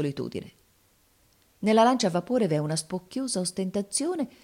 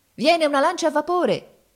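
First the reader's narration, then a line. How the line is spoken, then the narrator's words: Alarmed shout. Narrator (Italian): gridava uno di noi avvistando il nemico a distanza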